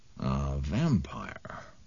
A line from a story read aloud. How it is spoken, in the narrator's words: Mar said softly